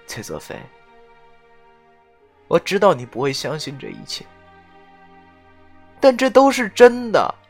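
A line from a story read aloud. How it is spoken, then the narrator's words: Weak smile, soft voice. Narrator (Chinese): 杜飞宇无力的笑了一下，然后轻声的说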